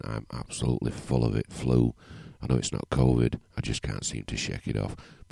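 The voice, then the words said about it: Croaky voice. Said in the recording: “my voice is a bit croaky this morning”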